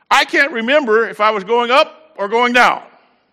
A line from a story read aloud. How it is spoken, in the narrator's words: yelled